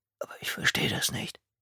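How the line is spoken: Whisper. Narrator (German): flüsterte Carter

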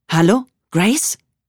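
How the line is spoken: Calling out. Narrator (German): rief es

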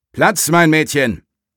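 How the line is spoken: Calling out. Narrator (German): rief er seiner Hündin zu

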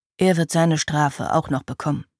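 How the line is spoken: Murmured with hatred. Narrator (German): raunte Griffith mit demselben Hass in der Stimme, den Gwenchlian in ihrem Herzen spürte

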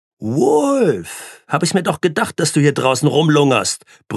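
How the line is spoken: Roaring down hallway. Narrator (German): brüllte sie in den Gang

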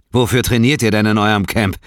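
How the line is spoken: Calling over. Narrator (German): rief ihnen zu

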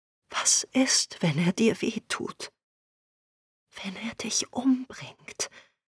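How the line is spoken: Sad choked whisper. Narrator (German): zu traurig zum Reden, aber schließlich schluckte sie und flüsterte

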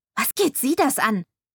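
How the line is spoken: Angry hiss. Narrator (German): fauchte ich wütend

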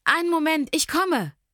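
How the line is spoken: Called out. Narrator (German): rief ich

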